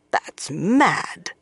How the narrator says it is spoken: Swan growled

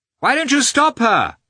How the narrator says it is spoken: shouted Oblonsky

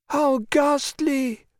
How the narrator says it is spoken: wailed Babette

